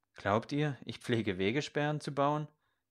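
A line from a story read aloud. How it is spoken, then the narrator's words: Mocking laugh. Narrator (German): Der Pfarrherr lachte spöttisch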